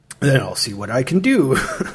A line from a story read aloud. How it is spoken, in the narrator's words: he chuckled